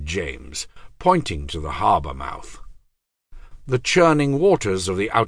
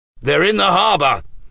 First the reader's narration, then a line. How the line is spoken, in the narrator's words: shouted William